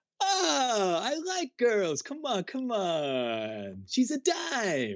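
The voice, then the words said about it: Character accent sounding like Mario. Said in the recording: “your impression of this character. Can you do the accent? ... you sound more like Mario from Nintendo”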